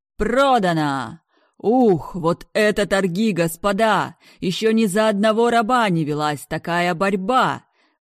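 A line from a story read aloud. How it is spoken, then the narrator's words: Booming announcer. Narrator (Russian): Прогремел ведущий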